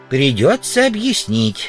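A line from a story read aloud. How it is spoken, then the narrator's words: Plain, old man. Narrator (Russian): сказал старик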